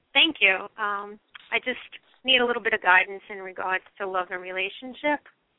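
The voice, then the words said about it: New York accent. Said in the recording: “New York, ... accent, ... it was the accent”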